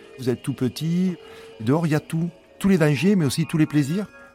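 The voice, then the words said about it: Southwestern French accent. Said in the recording (French): “Cet accent du sud-ouest”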